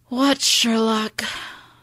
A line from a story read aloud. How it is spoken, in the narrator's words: asks, sighing